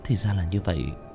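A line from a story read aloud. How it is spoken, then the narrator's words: Muttered. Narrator (Vietnamese): Nam Ly Nguyệt tỉnh lại, lẩm bẩm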